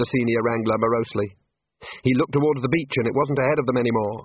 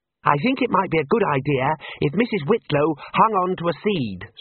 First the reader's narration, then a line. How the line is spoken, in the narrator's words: said Ponder